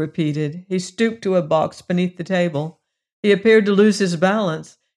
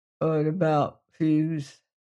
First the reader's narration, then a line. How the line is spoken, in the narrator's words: he murmured